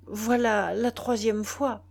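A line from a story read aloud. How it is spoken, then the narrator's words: Stammering. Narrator (French): balbutia-t-il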